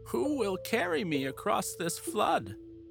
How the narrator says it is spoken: she spoke in a whining voice

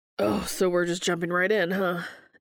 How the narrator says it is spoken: Dean wheezes out

